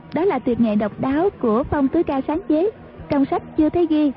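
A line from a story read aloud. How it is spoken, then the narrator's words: Smiling. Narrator (Vietnamese): Dương Ngữ Yên mỉm cười nói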